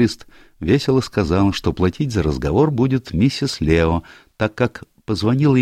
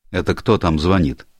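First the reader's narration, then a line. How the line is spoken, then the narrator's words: Irritated question. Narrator (Russian): раздраженно спросил он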